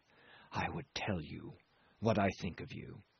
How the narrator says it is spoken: he said, very softly

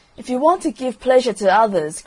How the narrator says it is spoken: cried the Roman candle

